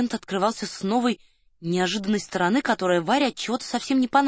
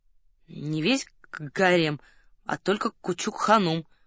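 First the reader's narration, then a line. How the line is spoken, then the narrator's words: Reluctant grumbling. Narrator (Russian): пробурчал титулярный советник, явно не желая углубляться в подробности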